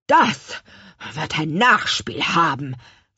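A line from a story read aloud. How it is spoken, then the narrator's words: Hissing angrily. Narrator (German): fauchte der Bäckermeister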